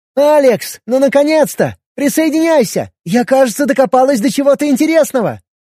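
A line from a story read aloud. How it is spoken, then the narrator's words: Shout. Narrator (Russian): крикнула Алиса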